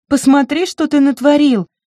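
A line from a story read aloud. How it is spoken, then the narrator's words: Cried out. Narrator (Russian): вскрикнула она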